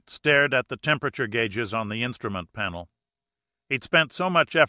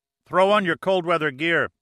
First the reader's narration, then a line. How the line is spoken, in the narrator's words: Pitt shouted